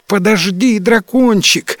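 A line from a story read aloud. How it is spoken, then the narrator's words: Shout. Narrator (Russian): закричала принцесса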